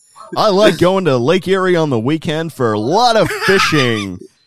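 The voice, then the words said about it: Put-on American accent. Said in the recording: “my American accents are way off ... sounds like you were from upper state Pennsylvania ... he sounds like he's from Lake Erie, like up in the rich suburbs ... Oh my gosh, he sounds like it.”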